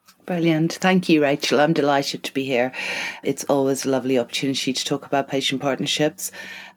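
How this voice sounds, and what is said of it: Irish accent. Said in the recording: “you have a lovely Irish accent”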